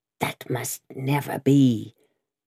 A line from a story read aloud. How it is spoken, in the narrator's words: croaked Jacques III